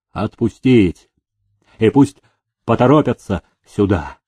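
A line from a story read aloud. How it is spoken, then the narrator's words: Stern command. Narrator (Russian): строго приказал управитель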